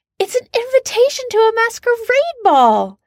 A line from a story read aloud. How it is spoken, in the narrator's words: Jan shrieks